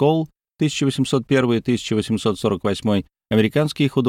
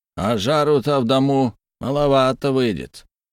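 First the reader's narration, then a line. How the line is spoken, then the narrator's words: Grumbling with Irish accent. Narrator (Russian): проворчал со своим ирландским выговором печник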